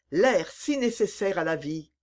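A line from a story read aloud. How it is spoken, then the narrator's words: Exclaimed. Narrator (French): s'écria Aramis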